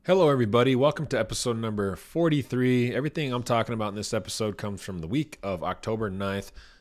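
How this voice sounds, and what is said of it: Slightly scratchy voice. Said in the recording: “My voice is a little scratchy.”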